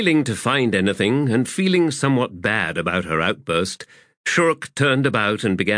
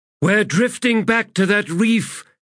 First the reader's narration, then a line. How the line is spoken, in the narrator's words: the handmaiden cried